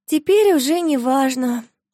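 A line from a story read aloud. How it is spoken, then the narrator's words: Sighing. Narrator (Russian): вздохнула Марфуша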